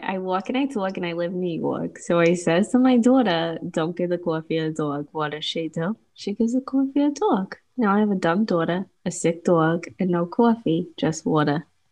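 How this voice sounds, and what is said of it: Put-on Long Island New York accent. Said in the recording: “you probably have the perfect accent for that ... you gotta do a little bit of an accent for the audience ... you're so Long Island”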